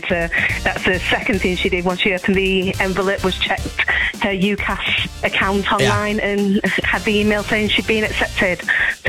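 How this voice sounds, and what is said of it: Yorkshire accent. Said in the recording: “I'm picking up a Yorkshire accent.”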